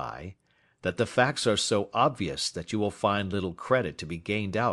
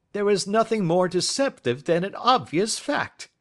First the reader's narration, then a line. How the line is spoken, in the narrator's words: he answered, laughing